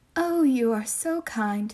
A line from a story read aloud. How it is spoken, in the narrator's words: said the wolf